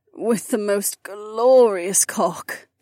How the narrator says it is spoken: Kat moaned

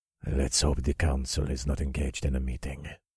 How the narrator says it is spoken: growled under his breath

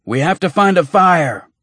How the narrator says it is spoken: Jonah shouted above the drumming of the destrier's hooves

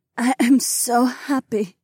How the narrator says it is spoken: Heiwan sighed

